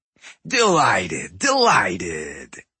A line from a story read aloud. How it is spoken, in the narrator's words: he boomed in his abrasive, raspy voice